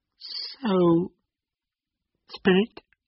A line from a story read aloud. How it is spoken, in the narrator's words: said Scrooge in a broken voice